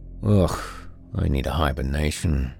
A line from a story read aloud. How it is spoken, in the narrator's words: Gris sighed